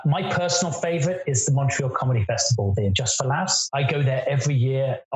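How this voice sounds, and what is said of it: British accent. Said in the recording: “Obviously, you can hear I have a British accent.”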